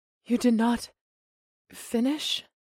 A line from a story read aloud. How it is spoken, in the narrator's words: She panted